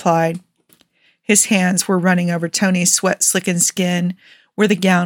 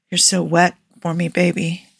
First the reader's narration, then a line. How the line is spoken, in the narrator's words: Steve groaned, low and rumbly and clearly pleased